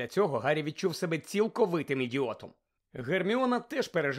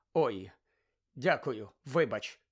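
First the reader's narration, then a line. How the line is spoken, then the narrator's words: Mumbled. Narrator (Ukrainian): пробурмотів він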